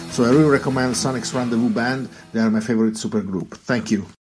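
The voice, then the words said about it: Charming foreign accent. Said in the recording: “That accent, man. Can't say no.”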